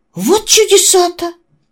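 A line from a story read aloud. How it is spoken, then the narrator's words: Exclamation. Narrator (Russian): воскликнул Сабатино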